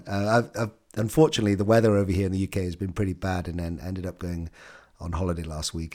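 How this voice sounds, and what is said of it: Voice breaking up from illness. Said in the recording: “my voice is breaking up, I've actually I'm a little bit ill here”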